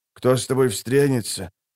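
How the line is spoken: Old man's mutter. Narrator (Russian): пробормотал дед

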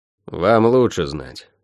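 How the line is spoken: Grumbled. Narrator (Russian): пробурчал Шен

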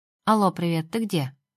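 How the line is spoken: Worried, slightly stern question. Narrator (Russian): Озабоченный немного строго спросил

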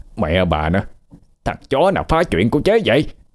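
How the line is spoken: Furious loud shout. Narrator (Vietnamese): Tí Trọc giận tím người, quát lớn

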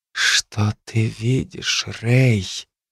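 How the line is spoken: Drawling whisper. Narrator (Russian): тягучий шепот Софи

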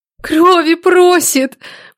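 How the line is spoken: Moaning. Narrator (Russian): простонала Нелада

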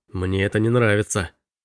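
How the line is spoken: Muttered. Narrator (Russian): пробормотал Робби

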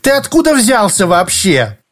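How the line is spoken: Sudden shout. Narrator (Russian): Неожиданно крикнула

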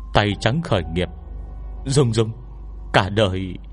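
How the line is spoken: Dazed muttering. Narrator (Vietnamese): Dư Sơn đột nhiên bất động, đôi mắt ngơ ngẩn, lẩm bẩm nói

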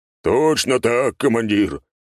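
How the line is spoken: Laughing reply. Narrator (Russian): хохотнул гном

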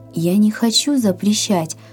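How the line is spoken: Plain. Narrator (Russian): сказал папа

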